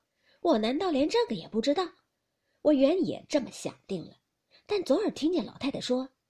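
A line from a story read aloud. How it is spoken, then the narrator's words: Sneering. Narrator (Chinese): 凤姐冷笑道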